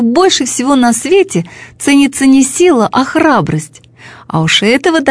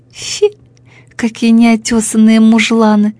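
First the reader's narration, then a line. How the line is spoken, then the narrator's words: Contemptuous snort, vain planet. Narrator (Russian): сказала презрительно хмыкнув планета, считавшая себя самой красивой во всей Вселенной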